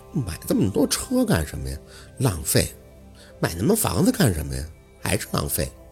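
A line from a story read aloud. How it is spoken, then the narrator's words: Drowsy fussy mumbling. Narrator (Chinese): 宝四眼皮子沉，嘴里却婆婆妈妈的嘟囔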